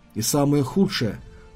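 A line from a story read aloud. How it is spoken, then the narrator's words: Even, level voice. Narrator (Russian): продолжал он ровным голосом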